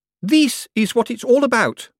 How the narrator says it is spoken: she announced triumphantly

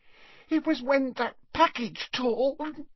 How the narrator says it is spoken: sobbed Leanne

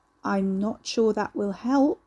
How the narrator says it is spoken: she said slowly

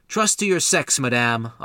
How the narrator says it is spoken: Lopez called out

